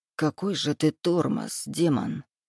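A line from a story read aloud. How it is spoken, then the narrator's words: Muttering. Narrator (Russian): пробормотал я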